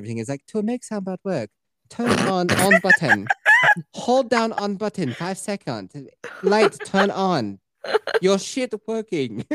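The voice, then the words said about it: Bad, vaguely Asian put-on accent. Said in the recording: “Speaking of a bad, vaguely Asian somewhere accent”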